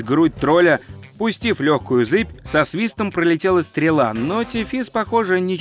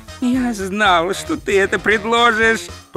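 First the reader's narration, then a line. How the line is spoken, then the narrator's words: Groaning. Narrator (Russian): простонал Ринсвинд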